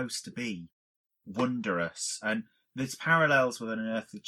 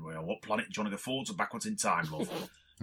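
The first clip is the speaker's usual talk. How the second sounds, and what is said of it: Put-on Manchester accent. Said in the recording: “you do that Manchester accent really well”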